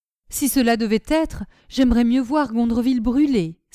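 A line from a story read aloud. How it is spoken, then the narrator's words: Exclaimed. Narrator (French): s'écria Mademoiselle de Cinq-Signes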